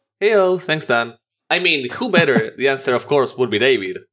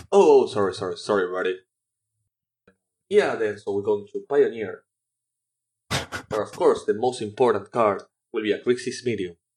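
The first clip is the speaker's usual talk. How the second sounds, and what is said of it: Imitates another person's voice. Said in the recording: “You have to pretend to be David. Do your David impersonation.”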